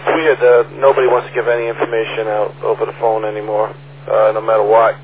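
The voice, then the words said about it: Hoarse, failing voice. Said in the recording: “I'm losing my voice here.”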